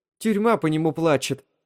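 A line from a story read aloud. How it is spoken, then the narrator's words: Indignant. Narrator (Russian): возмущенно произнесла Элис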